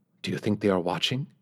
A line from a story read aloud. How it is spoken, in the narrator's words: Kim whispered